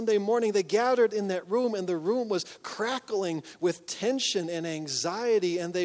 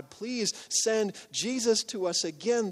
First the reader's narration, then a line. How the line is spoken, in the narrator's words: they prayed and they pleaded with God